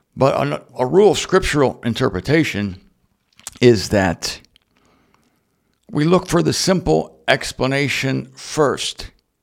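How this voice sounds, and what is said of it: Strained, unwell-sounding voice. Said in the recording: “My voice is acting up again ... I'm definitely under the weather”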